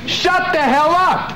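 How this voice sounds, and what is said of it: Loud angry yelling. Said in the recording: “I'm yelling at you.”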